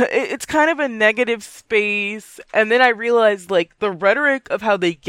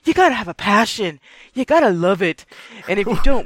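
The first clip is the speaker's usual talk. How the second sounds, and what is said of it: Put-on weird European accent. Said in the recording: “What impression is that? ... passionate teacher guy ... Of veer into a weird European accent, didn't it?”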